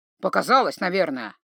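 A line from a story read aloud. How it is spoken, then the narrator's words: Grumbling troll. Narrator (Russian): буркнул тролль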